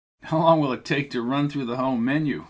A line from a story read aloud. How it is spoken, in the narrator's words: asked Tucker, chuckling